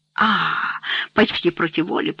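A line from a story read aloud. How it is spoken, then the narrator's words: Whisper. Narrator (Russian): прошептал Рене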